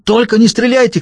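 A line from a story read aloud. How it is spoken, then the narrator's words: Shouting. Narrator (Russian): крикнул он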